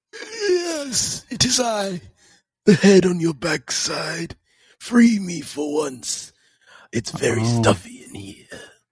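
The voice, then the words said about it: Partial Voldemort voice impression. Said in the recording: “I was trying to go Voldemort, but I didn't fully remember the accent. I couldn't, fully draw that from the memory bank.”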